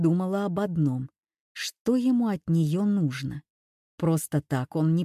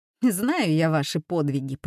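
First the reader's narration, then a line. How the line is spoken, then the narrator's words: Grumbled. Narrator (Russian): пробурчала Юля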